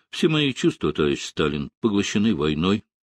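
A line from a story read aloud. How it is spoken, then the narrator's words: Calm reply. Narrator (Russian): спокойно ответил Рокоссовский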